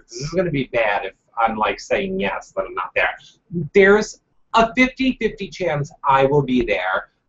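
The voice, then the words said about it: Thick accent. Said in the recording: “your accent is so thick.”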